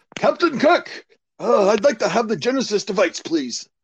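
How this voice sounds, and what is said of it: Imitates another person's voice. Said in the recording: “do another impersonation ... give us your best one. Give us your best one.”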